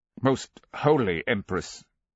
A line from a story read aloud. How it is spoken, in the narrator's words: he said tightly